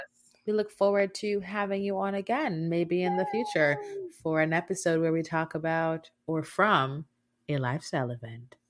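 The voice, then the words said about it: Sultry, seductive voice. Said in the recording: “I put on my sexy voice for it”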